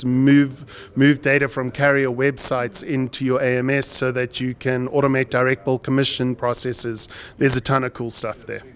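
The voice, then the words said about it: South African accent. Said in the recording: “South African accent”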